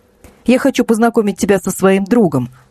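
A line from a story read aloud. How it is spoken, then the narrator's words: Plain. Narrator (Russian): сказал Данил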